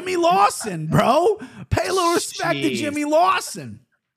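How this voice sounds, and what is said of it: Boston accent. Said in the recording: “I said his name in a Boston accent”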